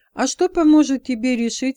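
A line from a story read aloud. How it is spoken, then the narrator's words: Plain. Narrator (Russian): спросил человек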